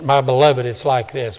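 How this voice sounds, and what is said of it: Southern accent, J. Vernon McGee impression. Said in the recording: “J. Vernon McGee ... with that Southern accent.”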